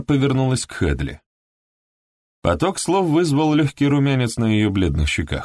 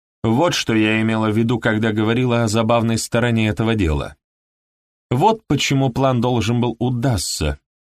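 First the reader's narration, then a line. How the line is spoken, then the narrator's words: Plain. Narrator (Russian): говорит Дон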